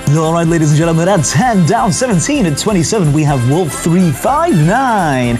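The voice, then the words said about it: Announcer-style radio voice. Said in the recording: “Here's my radio voice. I'm ready with the radio voice.”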